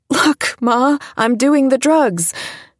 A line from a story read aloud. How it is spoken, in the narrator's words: She laughed for a second, said